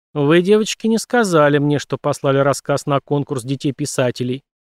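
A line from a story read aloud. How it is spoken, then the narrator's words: Plain. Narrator (Russian): сказала она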